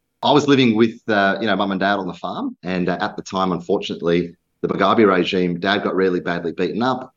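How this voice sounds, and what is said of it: Slight Zimbabwean accent twang. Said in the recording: “grew up in a country called Zimbabwe in Africa. So if you notice a bit of a twang in my accent”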